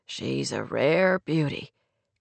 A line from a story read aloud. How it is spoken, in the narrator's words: Clay told her softly